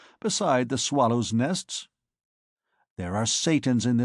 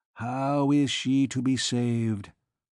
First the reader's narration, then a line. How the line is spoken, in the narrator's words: repeated Claude dreamily